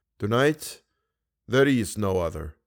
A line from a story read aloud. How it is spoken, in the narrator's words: declared the Persian in a slightly mournful voice